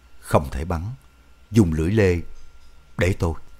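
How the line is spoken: Soft, quiet. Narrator (Vietnamese): Chính trị viên khẽ nói

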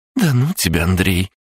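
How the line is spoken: Flirtatious laugh. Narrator (Russian): кокетливо рассмеялась Арина

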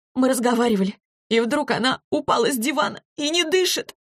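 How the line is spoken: Sobbing girl. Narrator (Russian): рыдала девочка

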